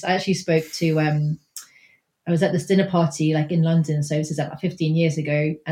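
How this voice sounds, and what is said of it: Well-spoken English accent. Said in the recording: “I have like a well-spoken English accent from boarding school.”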